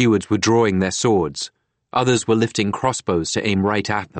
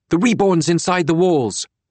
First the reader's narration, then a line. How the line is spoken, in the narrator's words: There was a fear in their shouts